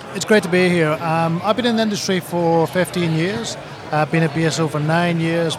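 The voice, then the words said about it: Scottish accent. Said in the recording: “as you can tell with my accent, as a Scot”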